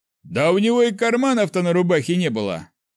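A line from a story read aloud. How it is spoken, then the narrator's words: Scoffing snort. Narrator (Russian): хмыкнул командир стражи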